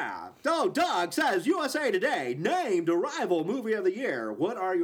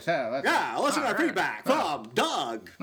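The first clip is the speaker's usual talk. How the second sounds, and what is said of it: Announcer-style radio voice. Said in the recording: “in your radio voice”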